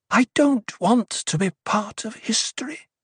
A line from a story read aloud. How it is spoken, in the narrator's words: she whispered